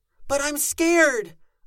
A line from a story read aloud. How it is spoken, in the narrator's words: cried out, loud, again to distract